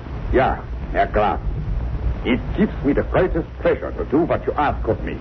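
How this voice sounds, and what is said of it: Convincing put-on foreign accent. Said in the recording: “And my accent, you find it reasonably convincing? ... Oh, yeah, extremely so.”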